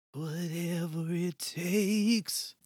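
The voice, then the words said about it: Sung line, rock singer style. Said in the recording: “Somewhere in between our two, I think. Yours sounded a little Bruce Springsteen-y to me.”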